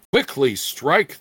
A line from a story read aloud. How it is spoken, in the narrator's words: the young thief shouted to his friend, for he suspected some trick on Plincourt's part